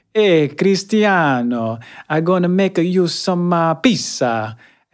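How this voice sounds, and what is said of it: Put-on Italian accent. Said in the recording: “Italian, and he went to Sicily... he didn't have an accent, you know, and he was from Long Island... Okay, where'd this accent come from?”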